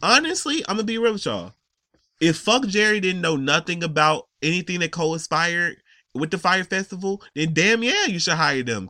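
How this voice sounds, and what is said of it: Loud, yelling voice. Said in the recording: “I've been yelling this whole time. I'm sorry if I've been yelling in y'all ears. I just realized I'm yelling.”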